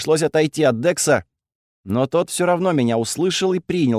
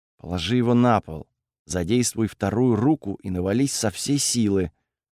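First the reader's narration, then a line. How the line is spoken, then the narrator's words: Quiet speech. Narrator (Russian): тихо сказал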